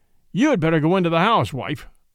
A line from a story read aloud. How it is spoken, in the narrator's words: said the farmer